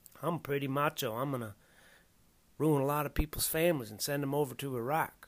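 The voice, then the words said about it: Mock Texas accent imitating George W. Bush. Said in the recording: “Bush would lean to his left on the podium ... And talking about like this with this fucking fake Texas accent.”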